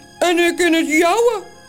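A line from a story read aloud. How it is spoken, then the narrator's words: Calling in another's voice. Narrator (Dutch): roept de andere Toos met de stem van Morrel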